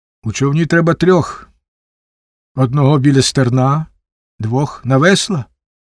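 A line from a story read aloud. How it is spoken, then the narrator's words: Calm reply, cat. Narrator (Ukrainian): спокійно відказав кіт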